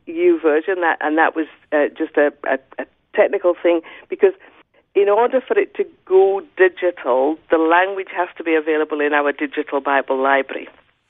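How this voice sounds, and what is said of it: Scottish accent. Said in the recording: “someone with a Scottish accent ... we actually quite love your Scottish accent.”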